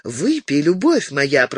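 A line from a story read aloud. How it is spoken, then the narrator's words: Cooing, loving. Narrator (Russian): проворковала Бланш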